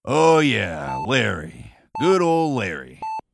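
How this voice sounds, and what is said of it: Sarcastic tone. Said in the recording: “That was sarcasm,”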